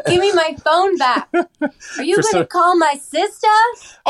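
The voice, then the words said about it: Put-on harsh Boston accent. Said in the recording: “That's a shot at Alice's hard, harsh Boston accent.”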